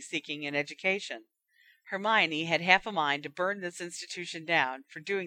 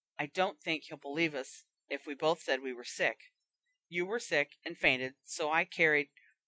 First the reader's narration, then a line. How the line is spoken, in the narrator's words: Ron had started muttering to himself